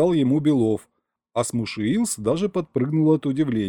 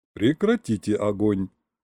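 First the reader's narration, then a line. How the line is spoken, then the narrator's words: Softer request. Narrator (Russian): более мягко попросил Белов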